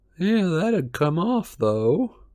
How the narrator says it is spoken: muttered Mundungus

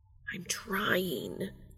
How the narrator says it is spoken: Castiel hisses

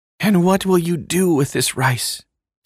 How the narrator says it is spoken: said the Raja with a sigh

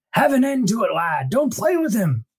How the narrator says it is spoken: Stilgar yells to Paul

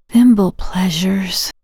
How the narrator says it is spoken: Sheila said, her voice barely above a whisper

